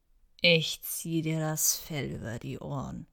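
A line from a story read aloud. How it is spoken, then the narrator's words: Weak, listless growl. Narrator (German): knurrte er, doch da war keine Energie in seinen Worten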